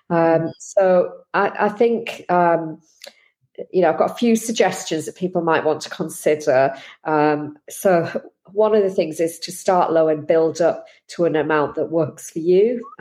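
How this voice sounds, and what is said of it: Slightly hoarse, throaty voice. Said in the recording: “I've got a little bit of a frog in my throat ... I'm trying not to cough. So if I sound a bit strange”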